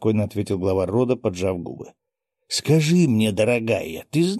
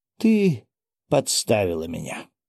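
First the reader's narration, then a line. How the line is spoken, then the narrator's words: Completely calm. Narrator (Russian): совершенно спокойно произнес Леонид Викторович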